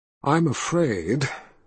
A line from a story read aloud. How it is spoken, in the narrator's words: she sighed